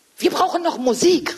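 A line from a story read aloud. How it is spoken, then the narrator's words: Called out. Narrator (German): rief Leo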